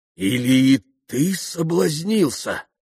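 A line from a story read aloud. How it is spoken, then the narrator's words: Sudden exclamation. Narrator (Russian): воскликнул вдруг отец Паисий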